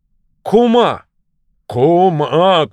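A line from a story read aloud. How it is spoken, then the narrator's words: Shouted by a bear. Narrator (Russian): крикнул медведь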